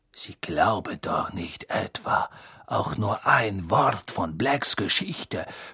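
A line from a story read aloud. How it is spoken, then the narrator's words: Whispered. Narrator (German): flüsterte Snape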